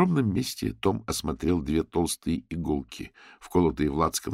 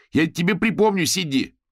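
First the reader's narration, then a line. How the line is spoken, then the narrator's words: Shout while running out. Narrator (Russian): Выбегая за дверь, он крикнул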